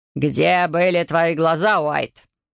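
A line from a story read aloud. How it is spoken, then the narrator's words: Growling teacher. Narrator (Russian): рыкнул преподаватель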